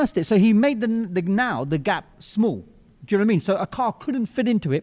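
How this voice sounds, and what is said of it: Usual voice. Nothing is said of it.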